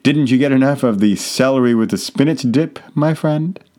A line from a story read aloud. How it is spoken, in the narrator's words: smiled and chuckled and said